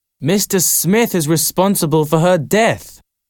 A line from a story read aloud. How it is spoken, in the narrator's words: shouted